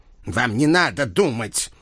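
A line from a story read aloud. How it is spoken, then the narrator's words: Stern doctor's reminder. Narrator (Russian): строго напомнил доктор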